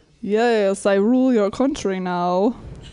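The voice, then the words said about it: Bad put-on Russian accent. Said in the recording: “Russian accent ... And a really bad accent?”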